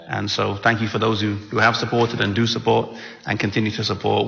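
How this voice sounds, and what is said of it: Mixed English and American accent. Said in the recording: “I love his accent as well, too. You know, it's kind of similar to Southern Illinois, just a little bit ... they say I have an English accent ... they say I have an American accent”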